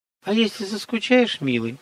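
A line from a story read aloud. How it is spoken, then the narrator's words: Honeyed sing-song voice. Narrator (Russian): медовым голосом пропила Мария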